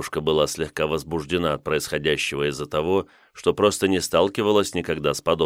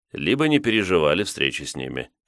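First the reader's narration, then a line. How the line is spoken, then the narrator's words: Snorting, wry. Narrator (Russian): хмыкнул я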